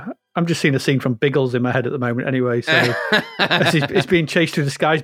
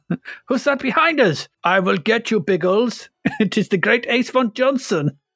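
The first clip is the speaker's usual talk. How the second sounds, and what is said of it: Put-on Bavarian German accent. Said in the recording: “Why is he Bavarian? ... he's got an accent.”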